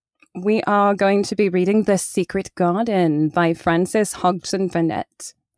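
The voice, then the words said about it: Nice accent. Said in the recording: “You have such a nice accent.”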